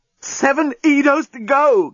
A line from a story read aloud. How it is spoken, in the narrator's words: gasped the journalist